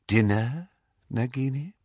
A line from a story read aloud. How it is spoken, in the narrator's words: said Voldemort softly